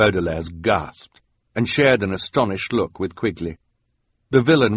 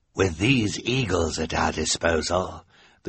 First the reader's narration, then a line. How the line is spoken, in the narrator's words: the sinister man said in his hoarse voice